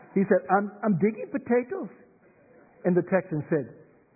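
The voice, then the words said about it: Put-on Scottish accent. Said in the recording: “that's the best Scottish accent I've”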